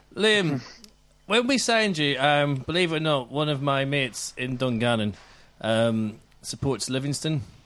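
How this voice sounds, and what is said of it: Northern Irish accent. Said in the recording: “I'm the Northern Irish one, so I've got a funny accent too”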